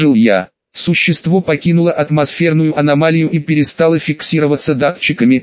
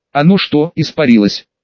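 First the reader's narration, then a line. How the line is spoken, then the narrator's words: Plain question. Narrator (Russian): спросил я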